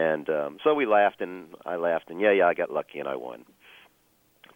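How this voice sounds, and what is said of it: Usual voice. Nothing is said of it.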